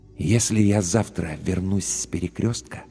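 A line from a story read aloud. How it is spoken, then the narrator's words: Very quiet, distinct whisper. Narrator (Russian): прошептал он очень тихо, но очень отчетливо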